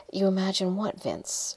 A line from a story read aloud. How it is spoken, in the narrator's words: Her concern was real, and her voice sounded so soothing and coaxing